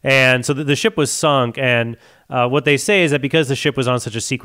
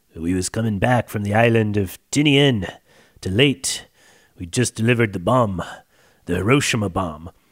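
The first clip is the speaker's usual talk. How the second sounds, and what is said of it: Imitates another person's voice. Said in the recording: “in my Robert Shaw voice”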